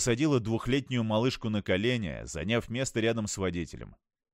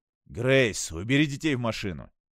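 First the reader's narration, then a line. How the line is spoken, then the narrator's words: Irritated speech. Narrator (Russian): раздраженно проговорил Питер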